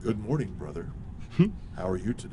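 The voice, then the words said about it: Polished imitated voice. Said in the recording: “Everybody's got a very polished, you know, ... That's probably not a very good impression”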